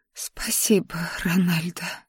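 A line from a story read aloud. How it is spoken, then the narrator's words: Whispered. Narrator (Russian): прошептала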